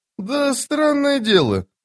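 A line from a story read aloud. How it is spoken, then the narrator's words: Thoughtful. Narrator (Russian): задумчиво проговорил Мурильо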